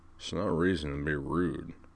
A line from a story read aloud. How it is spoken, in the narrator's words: Mac mumbled